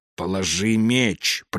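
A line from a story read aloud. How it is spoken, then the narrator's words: Hissing from doorway. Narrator (Russian): прошипел с порога Кесахан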